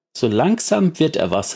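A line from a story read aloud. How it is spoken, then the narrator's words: Called out. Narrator (German): rief Krähe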